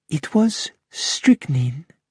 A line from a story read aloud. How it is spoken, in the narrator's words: said quietly